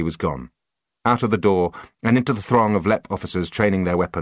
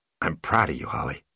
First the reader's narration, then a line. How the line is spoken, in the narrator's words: said quietly, almost awkwardly